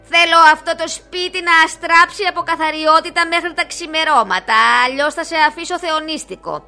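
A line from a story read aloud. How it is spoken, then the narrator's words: Stern witch. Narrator (Greek): είπε αυστηρά η μάγισσα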